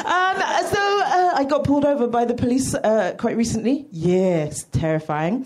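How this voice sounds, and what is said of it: British accent. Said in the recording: “I like having a British accent in, uh, in LA”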